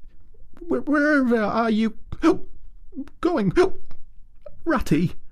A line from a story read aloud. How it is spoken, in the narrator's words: cried the tearful Mole, looking up in alarm